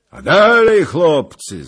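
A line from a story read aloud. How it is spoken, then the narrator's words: Calling out. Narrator (Polish): zawołał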